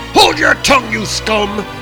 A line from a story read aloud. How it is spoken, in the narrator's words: roared Thor